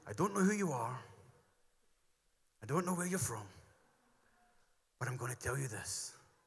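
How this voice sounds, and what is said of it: Gruff, raspy Irish-sounding impression. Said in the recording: “Does that sound Irish? Sounds quite gruffly, or quite rustly.”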